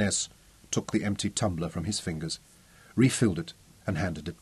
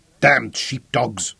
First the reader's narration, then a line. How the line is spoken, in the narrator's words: he snapped